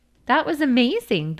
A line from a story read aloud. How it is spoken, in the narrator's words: the girl giggled